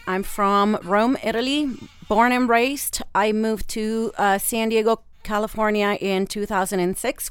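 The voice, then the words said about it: Slight foreign accent. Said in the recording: “I have a little bit of an accent.”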